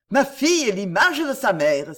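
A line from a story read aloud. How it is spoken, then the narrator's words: Exclaiming. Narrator (French): s'écria-t-il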